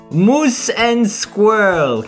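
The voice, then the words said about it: Put-on Boris and Natasha accent. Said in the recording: “I kind of wish that we had introduced ourselves as Boris and Natasha this week ... I've been working on my accent. ... I see that you've been working on yours as well.”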